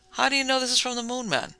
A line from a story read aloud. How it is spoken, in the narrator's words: he asked sharply